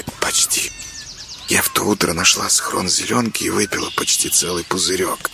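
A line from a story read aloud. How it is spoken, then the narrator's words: Whispered child's confession. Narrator (Russian): шепотом признается девочка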